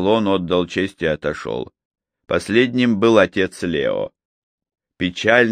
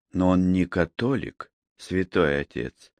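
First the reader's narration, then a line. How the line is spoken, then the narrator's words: Soft remark. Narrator (Russian): мягко заметила Анжелика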